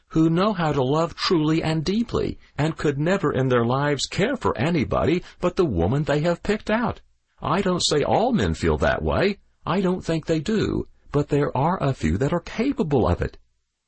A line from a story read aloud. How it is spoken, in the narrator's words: he said firmly